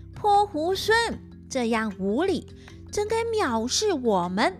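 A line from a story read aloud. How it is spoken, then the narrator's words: Demons loudly scolding. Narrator (Chinese): 那二妖魔 大声的骂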